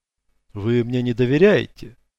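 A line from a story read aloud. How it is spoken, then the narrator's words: Sad suggestion. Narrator (Russian): печально предположил он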